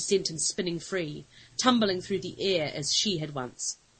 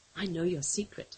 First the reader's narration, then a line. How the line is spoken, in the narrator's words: she whispered to it